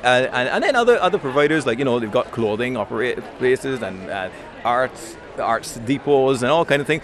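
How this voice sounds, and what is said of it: Barbadian accent with Irish influence. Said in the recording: “he sounds like Michael O'Leary. ... you can really hear the Irish influence in the Barbados accent”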